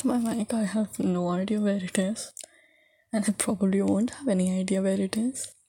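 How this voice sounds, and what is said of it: Sick-sounding voice. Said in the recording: “I'm sick today, by the way. My voice. If you can't hear it from my voice,”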